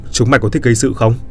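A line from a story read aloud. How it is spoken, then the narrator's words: Shouting. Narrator (Vietnamese): tôi quát lớn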